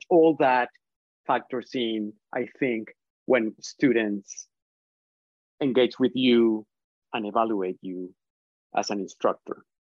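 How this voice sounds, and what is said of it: Colombian Spanish accent in English. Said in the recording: “Here I do, right? ... I am from Colombia, I'm from South America. ... I have an accent. English is not my first language.”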